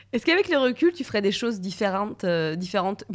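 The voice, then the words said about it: Southern French accent. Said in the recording (French): “Je sais pas pourquoi j'ai un accent du sud différent.”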